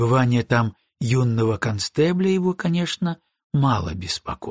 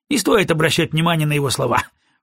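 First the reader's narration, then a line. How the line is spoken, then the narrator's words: Snorting with full mouth. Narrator (Russian): фыркнул Фрейзер, и во рту мелькнула полупережеванная сосиска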